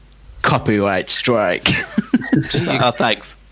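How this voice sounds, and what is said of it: Robot voice impression. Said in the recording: “that your robot impression”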